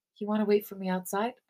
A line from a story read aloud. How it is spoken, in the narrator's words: I whisper to Sammy